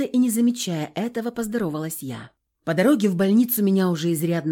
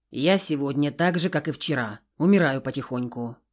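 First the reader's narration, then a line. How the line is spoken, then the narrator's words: Snapping retort. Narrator (Russian): огрызнулся он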